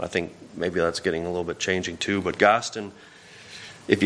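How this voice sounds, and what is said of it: Usual voice. Nothing is said of it.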